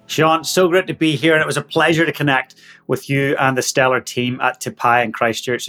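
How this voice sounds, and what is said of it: Northern Irish accent. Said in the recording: “your dialect isn't necessarily straight from Christchurch ... my accent, yeah, so I'm from Northern Ireland”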